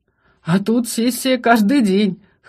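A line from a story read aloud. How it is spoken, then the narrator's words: Chuckle. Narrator (Russian): хохотнул Шатен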